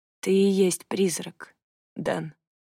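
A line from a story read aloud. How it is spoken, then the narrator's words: Quiet. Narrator (Russian): тихо сказала она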